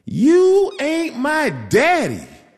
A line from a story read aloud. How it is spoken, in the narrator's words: she screamed